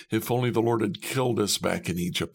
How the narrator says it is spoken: moaned

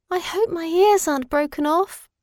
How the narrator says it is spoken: sighed the poor bunny

